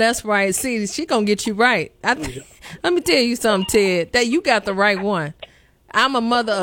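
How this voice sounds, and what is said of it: Usual voice. Nothing is said of it.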